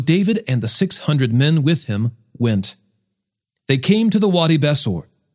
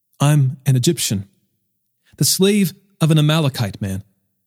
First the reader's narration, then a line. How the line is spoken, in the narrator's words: he said